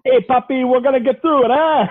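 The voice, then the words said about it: Bad put-on ethnic accent. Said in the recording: “That was my bad racist accent.”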